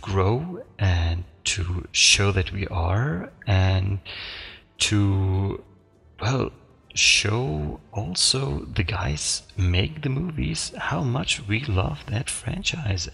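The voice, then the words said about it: Non-native English accent. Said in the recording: “excuse for my accent, because, well, you guessed it”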